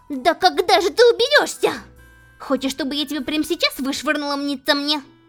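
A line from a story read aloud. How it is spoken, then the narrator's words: Angry shout. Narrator (Russian): В сердца закричала Беатрис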